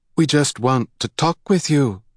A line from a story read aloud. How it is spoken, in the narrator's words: Hyla called in a flat, emotionless voice